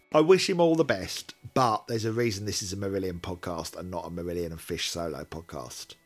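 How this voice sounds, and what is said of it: Worn-out, strained voice. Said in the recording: “My voice is shot.”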